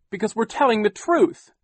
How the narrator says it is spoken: Klaus cried

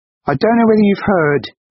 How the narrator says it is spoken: she shouted over the rushing water

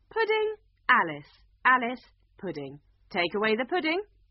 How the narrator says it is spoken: the Red Queen said loudly

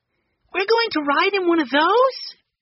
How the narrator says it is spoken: Benny cried, jumping up and down on the dock

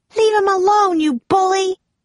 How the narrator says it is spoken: she cried

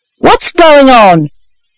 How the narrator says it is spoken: cried a man

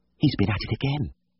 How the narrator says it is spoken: she whispered

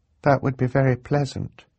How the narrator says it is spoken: Violet said, very sadly

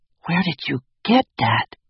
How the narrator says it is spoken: Hugo whispered

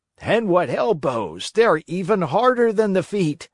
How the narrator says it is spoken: shouted another one, who had received a blow in the stomach

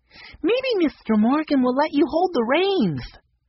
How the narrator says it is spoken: Daisy piped up

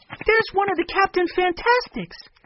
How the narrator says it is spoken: Benny cried

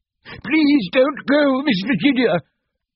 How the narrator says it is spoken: he cried

